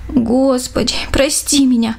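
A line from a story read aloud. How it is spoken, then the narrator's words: Pleading prayer. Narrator (Russian): взмолилась Даша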